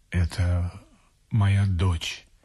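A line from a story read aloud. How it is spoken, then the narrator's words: Solemn. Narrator (Russian): сказал Фризоргер торжественно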